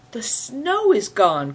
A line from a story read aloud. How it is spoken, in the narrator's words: cried Christian, astonished